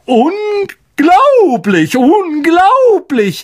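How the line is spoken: Called out. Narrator (German): rief er

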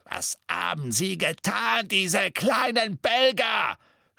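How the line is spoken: Shouting. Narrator (German): schrie er

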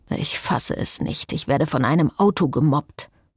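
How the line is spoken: Grumbling. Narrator (German): brummte Frederique

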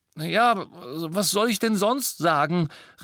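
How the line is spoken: Exclaimed. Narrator (German): rief Ron, und Harry war froh, dass er sich wehrte

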